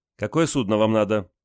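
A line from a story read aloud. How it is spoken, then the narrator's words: Stern young woman asking. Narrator (Russian): строго спросила девушка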